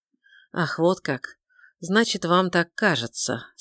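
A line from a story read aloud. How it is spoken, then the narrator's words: Calm inquiry. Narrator (Russian): спокойно поинтересовался он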